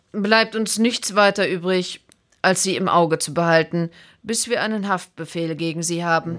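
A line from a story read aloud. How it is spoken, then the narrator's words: Calm inspector. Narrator (German): sagte der Inspektor ruhig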